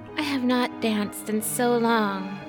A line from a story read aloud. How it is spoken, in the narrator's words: she said wistfully